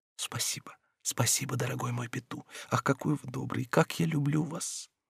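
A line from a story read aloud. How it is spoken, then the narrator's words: Quietly added. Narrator (Russian): тихо прибавила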